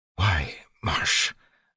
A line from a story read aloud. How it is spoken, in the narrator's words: Sazed whispered